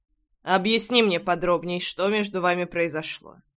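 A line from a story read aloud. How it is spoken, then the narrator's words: Calm request. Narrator (Russian): Спокойно попросил Пол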